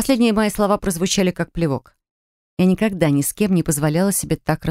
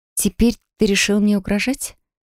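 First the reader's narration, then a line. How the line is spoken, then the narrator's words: Calm and quiet. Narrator (Russian): Голос звучал спокойно и тихо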